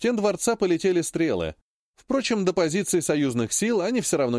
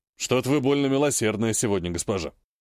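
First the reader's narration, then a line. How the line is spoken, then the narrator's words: Barbarian scoffing. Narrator (Russian): хмыкнул варвар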